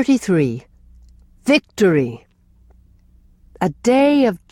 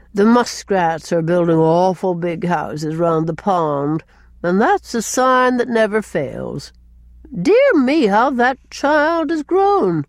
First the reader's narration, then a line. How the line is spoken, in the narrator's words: Cousin Sophia sighed again, as if it were an unhappy circumstance that a child should grow